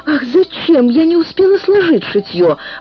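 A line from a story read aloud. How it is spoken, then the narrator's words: Exclaiming. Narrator (Russian): воскликнула Отикубо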